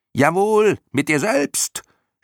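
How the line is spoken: Shouting in chorus. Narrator (German): schrien die Schlamuffen im Chor

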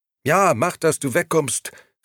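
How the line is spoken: Calling after. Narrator (German): rief ihm nach

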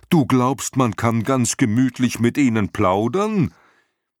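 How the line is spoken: Dragon's shout. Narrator (German): schrie der Drache

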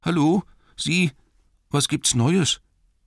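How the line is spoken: Trembling voice calling. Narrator (German): rief er mit zittriger Stimme

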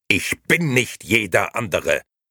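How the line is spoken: Sudden angry shout. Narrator (German): schrie Gigi plötzlich wütend

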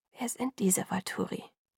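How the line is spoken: Whispering. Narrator (German): flüsterte

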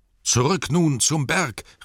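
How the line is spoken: Called out. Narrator (German): rief Thorin

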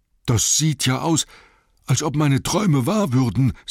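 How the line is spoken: Panting. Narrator (German): sagte Bombur, der keuchend hinterdrein kam

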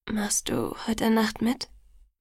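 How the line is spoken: Hesitant question. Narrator (German): fragte ich zögernd

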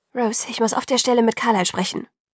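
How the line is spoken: Hasty. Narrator (German): sagte sie hastig

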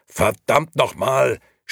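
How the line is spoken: Angry shout. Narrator (German): schrie eine wütende Stimme

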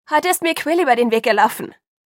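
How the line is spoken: Calling after someone. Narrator (German): rief ich ihm nach

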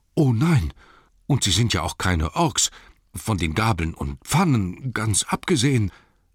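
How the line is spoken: Anxious. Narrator (German): sagte Bilbo, ängstlich

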